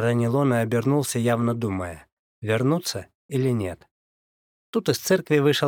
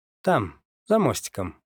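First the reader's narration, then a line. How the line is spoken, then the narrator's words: Curt, mocking. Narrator (Russian): бросил я, насмешливо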